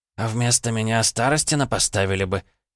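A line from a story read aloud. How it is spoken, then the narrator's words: Snort. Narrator (Russian): он хмыкнул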